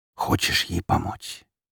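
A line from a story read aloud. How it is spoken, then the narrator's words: Sudden quiet whisper. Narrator (Russian): Неожиданный и тихий шепот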